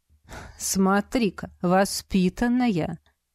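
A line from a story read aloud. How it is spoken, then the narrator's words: Elderly man's snort. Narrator (Russian): хмыкнул пожилой мужчина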